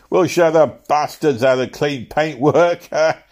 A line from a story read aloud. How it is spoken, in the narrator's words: shouted